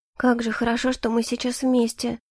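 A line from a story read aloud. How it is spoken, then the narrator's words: Soft murmur. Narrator (Russian): тихо пробормотала я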